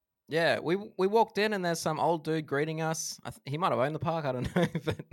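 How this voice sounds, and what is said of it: Usual voice. Nothing is said of it.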